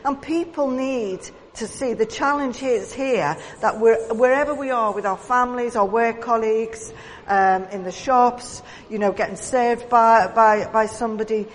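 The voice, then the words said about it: Liverpool Scouse accent. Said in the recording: “I am native born to Liverpool, so I am Scouse through and through ... not only can people tell by my accent”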